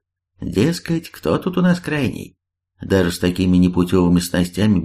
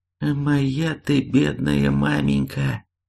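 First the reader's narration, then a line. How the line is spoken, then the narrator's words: Trembling voice, huntsman. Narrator (Russian): дрожащим голосом отозвался егерь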